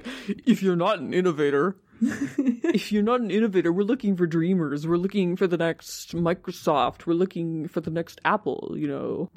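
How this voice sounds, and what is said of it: Imitates another person's voice. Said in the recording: “my Elizabeth Holmes impression. I think it's pretty good. ... It was pretty good.”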